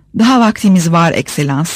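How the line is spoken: Plain. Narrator (Turkish): dedi

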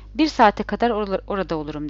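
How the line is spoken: Plain. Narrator (Turkish): dedi

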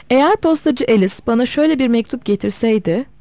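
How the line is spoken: Plain. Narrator (Turkish): dedi

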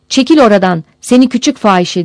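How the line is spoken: Shouted. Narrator (Turkish): diye bağırdı

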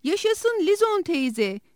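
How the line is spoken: Group cheering shout. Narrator (Turkish): diye bağırdılar

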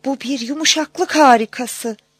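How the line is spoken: Crying out. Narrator (Turkish): diye haykırmış

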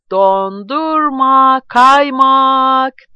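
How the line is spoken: Shouting. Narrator (Turkish): diye bağırınca

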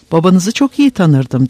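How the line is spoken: Plain. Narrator (Turkish): dedi Kurt Çilke

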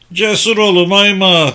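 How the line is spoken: Loudly repeated. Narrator (Turkish): diye yüksek sesle tekrar etti İdris

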